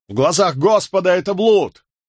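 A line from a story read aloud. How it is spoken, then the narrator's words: Shouting. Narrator (Russian): Кто-то из них крикнул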